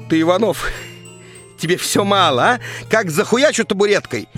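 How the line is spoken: Drunken neighbor yelling. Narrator (Russian): вопит пьющая соседка

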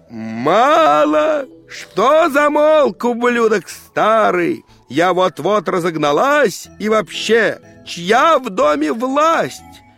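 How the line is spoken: Old woman yelling. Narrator (Russian): Бабка ж заорала

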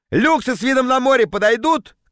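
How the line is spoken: Shouted. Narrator (Russian): крикнул я

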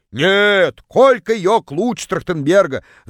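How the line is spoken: Distant yelling. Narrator (Russian): Заорала одна из них из самого дальнего угла

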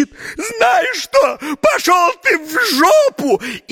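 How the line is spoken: Sudden furious shout. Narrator (Russian): покраснела, побледнела, а потом как закричит

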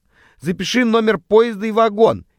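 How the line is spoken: Shouting over wheels' noise. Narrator (Russian): перекрикивая стук колес, кричала срака

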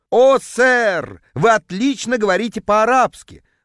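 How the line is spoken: Ecstatic howl. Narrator (Russian): восторженно взвыл продавец

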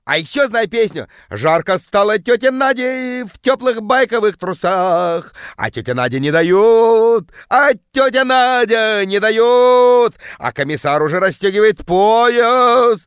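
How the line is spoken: Bellowing in deep bass. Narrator (Russian): орала тетка жутким басом

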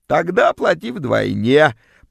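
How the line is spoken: Creaky rasp. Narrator (Russian): проскрипела вымогательница

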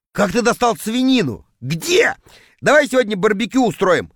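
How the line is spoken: Joyful shouting, group. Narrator (Russian): радостно кричали они

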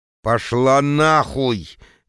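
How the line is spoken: Terrified, through gritted teeth. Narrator (Russian): Леденее от ужаса сквозь зубы цежу я

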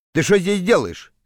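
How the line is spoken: Plain. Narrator (Russian): спросил капитан

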